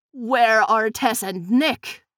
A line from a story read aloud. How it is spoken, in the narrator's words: Buck sneered